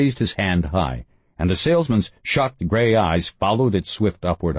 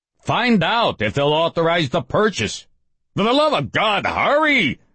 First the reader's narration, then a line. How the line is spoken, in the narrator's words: the priest shouted